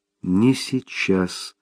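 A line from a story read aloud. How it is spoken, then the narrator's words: Soft reply. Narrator (Russian): мягко откликнулась Мэрибет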